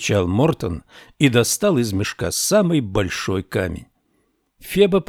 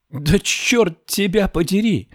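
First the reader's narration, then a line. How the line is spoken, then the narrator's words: Exclaiming. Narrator (Russian): воскликнула она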